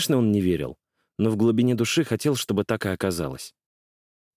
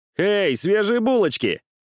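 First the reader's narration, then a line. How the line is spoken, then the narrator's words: Grinning shout, burly young man. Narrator (Russian): осклабившись, крикнул крупный смуглый парень с бычьей шеей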